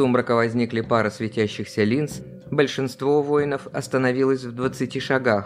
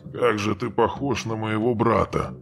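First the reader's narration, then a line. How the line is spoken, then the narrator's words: Mumbling. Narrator (Russian): пробормотал Каган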